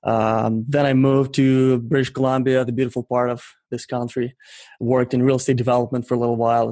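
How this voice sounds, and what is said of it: Ukrainian-accented English. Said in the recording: “clearly by the accent you can say I didn't grow up in North America”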